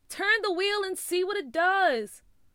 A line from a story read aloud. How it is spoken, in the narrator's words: Nathaniel screamed back